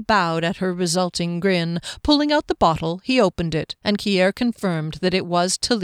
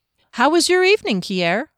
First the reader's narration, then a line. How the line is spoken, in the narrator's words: Fennel asked cheerfully